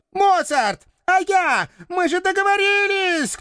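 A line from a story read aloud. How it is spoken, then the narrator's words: Shouting after someone. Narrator (Russian): кто-то кричал мне вслед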